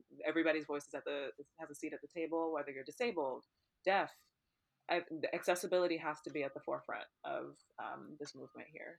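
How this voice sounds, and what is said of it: Tired-sounding voice. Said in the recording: “I'm tired. I don't know if you can hear it in my voice, but my ass is tired.”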